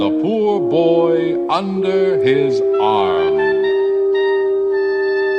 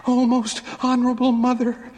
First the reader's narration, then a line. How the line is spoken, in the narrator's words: panted